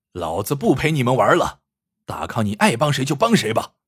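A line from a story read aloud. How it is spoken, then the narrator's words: Roaring. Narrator (Chinese): 老刀大吼一声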